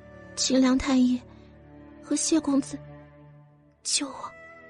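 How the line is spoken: Weak whispered plea. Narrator (Chinese): 很费力气 小声的请求着说道

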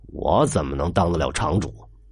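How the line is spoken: Embarrassed low voice. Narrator (Chinese): 祥子的脸红起来，低声说了句

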